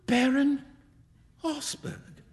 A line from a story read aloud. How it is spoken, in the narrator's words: cried Huey